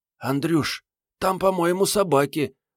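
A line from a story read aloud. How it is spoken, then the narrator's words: Trembling voice. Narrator (Russian): вздрагивающим голосом сказала Мариетта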